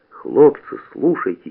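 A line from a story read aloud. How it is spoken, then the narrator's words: Quiet call. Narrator (Russian): тихо подозвал Насоська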